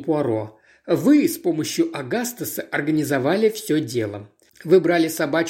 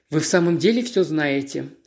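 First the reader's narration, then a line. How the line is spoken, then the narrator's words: Dry question. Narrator (Russian): сухо спросила Эйми Карнаби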